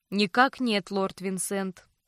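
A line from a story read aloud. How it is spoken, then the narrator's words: Calm. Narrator (Russian): спокойно ответил тот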